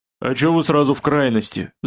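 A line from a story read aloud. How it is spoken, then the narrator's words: Goblin mumbling. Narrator (Russian): забормотал гоблин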